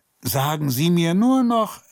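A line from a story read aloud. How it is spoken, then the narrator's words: Calling after her. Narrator (German): rief er ihr hinterher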